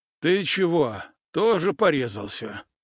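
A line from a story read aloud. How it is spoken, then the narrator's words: Hoarse question. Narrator (Russian): хрипло поинтересовался сосед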